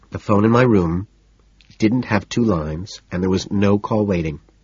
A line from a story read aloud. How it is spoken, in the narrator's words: she says